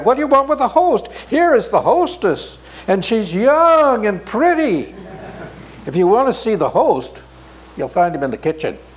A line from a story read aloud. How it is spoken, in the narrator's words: cried